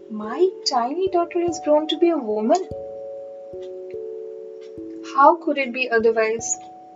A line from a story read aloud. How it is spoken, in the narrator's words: the queen asked with a sigh